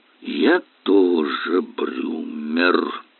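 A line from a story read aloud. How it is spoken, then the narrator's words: Through clenched teeth. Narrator (Russian): процедил Эллери сквозь стиснутые зубы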